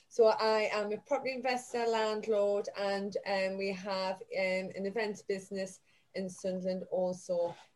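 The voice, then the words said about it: Northeast English Newcastle accent. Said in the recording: “I'm from the northeast, Newcastle. Actually, you can probably tell by the accent.”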